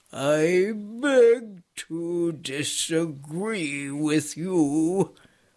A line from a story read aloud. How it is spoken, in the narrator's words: returned the stone in a cold voice